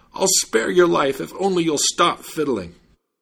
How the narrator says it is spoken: the judge was out of breath and cried out

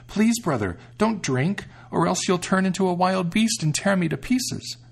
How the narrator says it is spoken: the sister exclaimed

